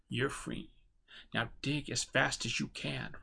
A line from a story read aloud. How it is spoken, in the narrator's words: Rob whispered, not quietly enough to remain undetected